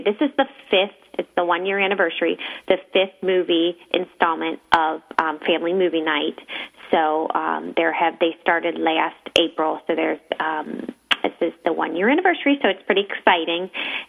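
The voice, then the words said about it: Midwestern American accent. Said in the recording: “Where is your accent from? It puts a smile on our face. ... I'm a Midwestern girl.”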